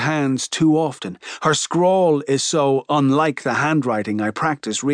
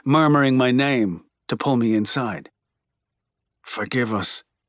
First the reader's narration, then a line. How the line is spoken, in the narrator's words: he murmurs